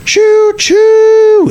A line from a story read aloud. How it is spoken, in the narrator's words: screaming